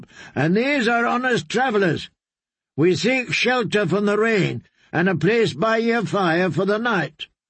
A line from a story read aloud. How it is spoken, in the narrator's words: Marybold had shouted up